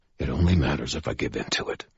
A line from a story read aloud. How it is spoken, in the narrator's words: I replied, more harshly than I meant to